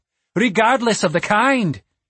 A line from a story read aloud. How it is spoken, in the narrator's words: Orgel snapped back